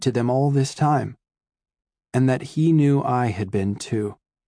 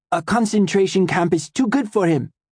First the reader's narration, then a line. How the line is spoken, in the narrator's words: Max cried